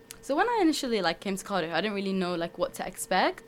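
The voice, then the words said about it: Sheffield English accent. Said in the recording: “you've got an accent there ... It's from Sheffield.”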